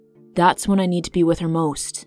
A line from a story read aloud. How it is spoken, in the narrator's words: the young man growled